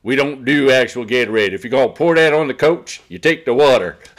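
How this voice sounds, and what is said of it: Mocking Southern accent. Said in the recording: “he makes fun of him with the Southern accent.”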